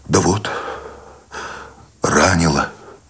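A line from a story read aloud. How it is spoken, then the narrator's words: Tired exhale. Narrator (Russian): Сущень устало выдохнул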